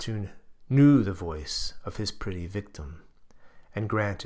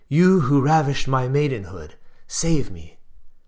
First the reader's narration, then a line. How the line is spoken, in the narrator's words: she cried